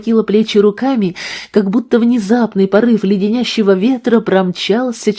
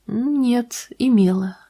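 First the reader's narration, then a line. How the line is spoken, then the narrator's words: Soft objection. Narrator (Russian): мягко возразила Натали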